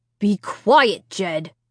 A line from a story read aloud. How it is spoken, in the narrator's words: Dad said sharply